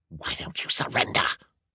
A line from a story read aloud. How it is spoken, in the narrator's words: She hissed